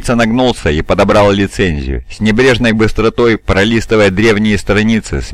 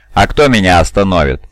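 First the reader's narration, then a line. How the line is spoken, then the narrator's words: Deafening, hateful laughter. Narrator (Russian): Он оглушительно, ненавидяще расхохотался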